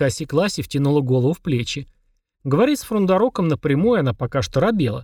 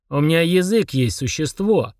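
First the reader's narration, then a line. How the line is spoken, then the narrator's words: Through gritted teeth. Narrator (Russian): процедил Фурундорог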